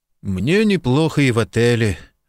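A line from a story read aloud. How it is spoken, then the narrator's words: Dull, flat voice. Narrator (Russian): отозвался Марк тусклым голосом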